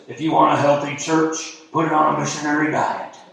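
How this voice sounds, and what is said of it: Poor impersonation of older preacher. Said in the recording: “That's a terrible impersonation of him.”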